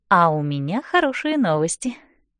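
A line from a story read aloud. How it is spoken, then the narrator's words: Sweet voice. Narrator (Russian): говорю я Лэндону сладким голосом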